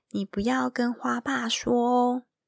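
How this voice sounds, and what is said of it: Quiet whispered speech. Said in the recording (Chinese): “小声的说”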